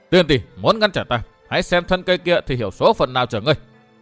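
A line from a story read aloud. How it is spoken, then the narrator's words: Shout. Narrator (Vietnamese): chàng quát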